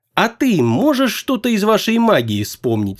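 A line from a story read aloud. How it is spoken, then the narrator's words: Plain question. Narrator (Russian): спросил Фес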